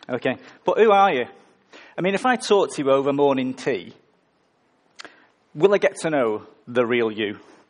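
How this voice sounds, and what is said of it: Northern English accent. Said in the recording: “my accent, I'm from the north of England, so love is love”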